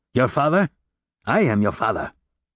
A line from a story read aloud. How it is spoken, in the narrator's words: Monsieur Gillenormand stopped laughing and said in a harsh voice